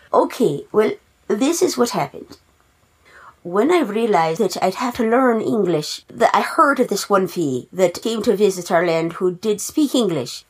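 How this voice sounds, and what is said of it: Put-on Irish accent. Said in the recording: “your accent? ... me accent ... So that's why I have an Irish accent”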